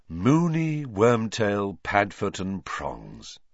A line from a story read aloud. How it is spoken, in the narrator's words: sighed George